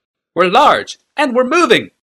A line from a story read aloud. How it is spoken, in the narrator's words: replied Tokasia, screaming above the wind